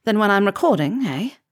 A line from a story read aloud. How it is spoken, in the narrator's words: stammered